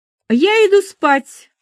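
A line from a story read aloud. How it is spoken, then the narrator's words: Sharp. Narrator (Russian): резко произнесла Перлова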